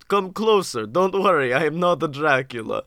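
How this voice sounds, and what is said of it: Eastern European vampire-like character voice. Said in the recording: “It's very Eastern European you're going there. ... I started the accent and I was like, "Oh no, I do sound like I can suck blood."”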